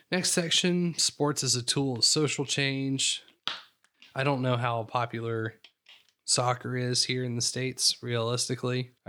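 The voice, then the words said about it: Slightly raspy voice. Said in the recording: “I'm a little uh little raspy here”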